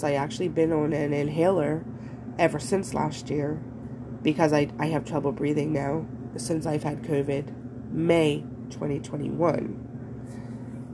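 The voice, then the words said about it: Congested, stuffy-sounding voice. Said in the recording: “I am congested, as you can hear.”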